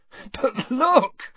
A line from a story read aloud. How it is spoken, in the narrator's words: said Ron, laughing